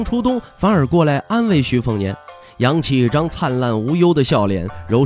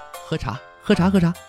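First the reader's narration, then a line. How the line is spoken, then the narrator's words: With a slight smile. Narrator (Chinese): 徐凤年在一旁微微一笑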